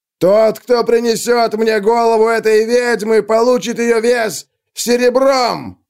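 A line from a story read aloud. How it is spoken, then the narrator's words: Roared. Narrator (Russian): проревел он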